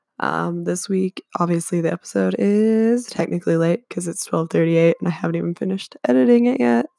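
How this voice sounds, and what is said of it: Gravelly, hoarse voice. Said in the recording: “I have a quite gravelly and sexy voice ... I've been sick for the last like 2.5 weeks”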